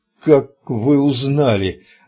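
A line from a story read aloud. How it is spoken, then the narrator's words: Forced through teeth. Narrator (Russian): выдавил Кадберт сквозь зубы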